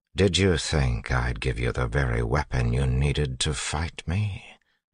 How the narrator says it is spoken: Zane asked quietly

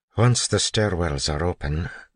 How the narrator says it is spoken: Doxson said quietly

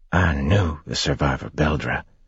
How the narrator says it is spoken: he whispered harshly

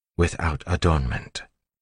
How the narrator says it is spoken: whispered

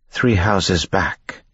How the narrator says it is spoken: Vin said

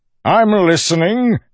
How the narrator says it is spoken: Milan yelled over the crowd

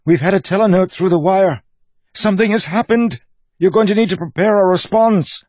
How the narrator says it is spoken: the woman cried

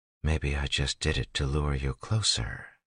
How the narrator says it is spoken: she whispered, softly yet loud enough that she knew tin-enhanced ears would hear her

